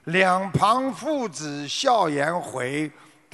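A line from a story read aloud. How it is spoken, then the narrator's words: Loud, urgent reply. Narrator (Chinese): 情急之下，苏东坡大声的回应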